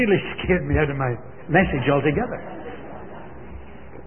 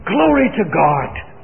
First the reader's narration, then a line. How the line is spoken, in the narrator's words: this old fellow shouted out